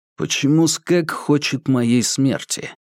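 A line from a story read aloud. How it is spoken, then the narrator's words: Plain. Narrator (Russian): спросил Курц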